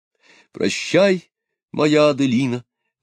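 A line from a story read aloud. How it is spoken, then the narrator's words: Exclamation. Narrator (Russian): воскликнул Мирович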